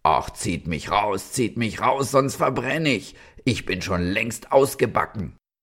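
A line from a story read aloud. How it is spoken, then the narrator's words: Bread calling out. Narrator (German): das Brot rief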